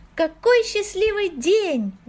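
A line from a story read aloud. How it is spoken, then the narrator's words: Joyful exclamation. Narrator (Russian): воскликнула Има, когда из скорлупы показался динозаврик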